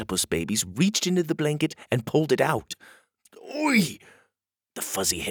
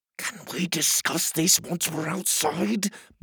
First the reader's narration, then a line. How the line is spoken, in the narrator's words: Pockets whispered impatiently